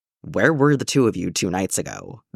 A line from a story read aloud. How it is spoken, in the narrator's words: Batman asked in that annoyingly gruff voice of his